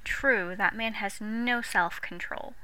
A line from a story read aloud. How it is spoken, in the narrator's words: Sheila sighed